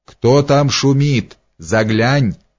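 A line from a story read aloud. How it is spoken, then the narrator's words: Stern shout. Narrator (Russian): крикнул он строго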